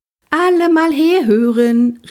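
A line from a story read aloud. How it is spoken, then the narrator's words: Calling across bus. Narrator (German): rief sie durch den Bus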